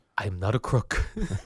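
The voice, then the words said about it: Richard Nixon impression. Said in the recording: “I do a Nixon impression”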